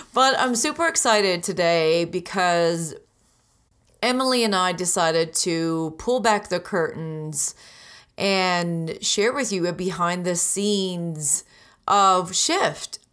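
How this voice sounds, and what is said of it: Raspy, hoarse voice. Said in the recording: “my voice is still not back to normal, so I'm sounding a little raspy”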